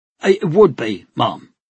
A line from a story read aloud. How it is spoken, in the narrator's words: he said firmly